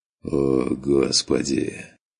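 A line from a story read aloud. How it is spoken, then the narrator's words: Slow quiet groan. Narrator (Russian): Со стоном произнес Керн все так же тихо и медленно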